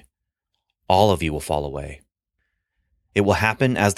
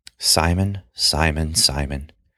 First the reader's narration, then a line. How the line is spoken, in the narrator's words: Jesus said calmly